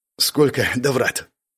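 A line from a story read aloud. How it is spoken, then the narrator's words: Hoarse female voice. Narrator (Russian): прозвучал ее хриплый голос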